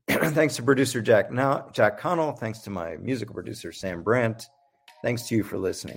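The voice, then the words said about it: Hoarse, fading voice. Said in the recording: “you see my voice kind of fading away ... despite my hoarse voice ... I'll be back next week with a better voice”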